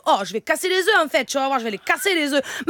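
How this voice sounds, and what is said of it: Put-on southern French accent. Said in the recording (French): “l'accent du sud”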